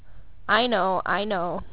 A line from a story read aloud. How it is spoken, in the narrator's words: I said